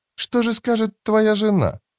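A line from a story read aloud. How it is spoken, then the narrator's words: Cooing, coy. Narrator (Russian): проворковала Фелисин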